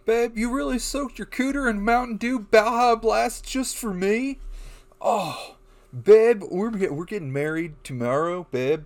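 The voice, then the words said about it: High-pitched stoned frat guy voice. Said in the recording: “did that voice ... Was that your Chad voice? ... my really high stone Chad voice”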